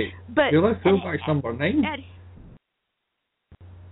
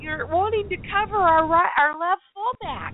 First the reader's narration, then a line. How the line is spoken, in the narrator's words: holler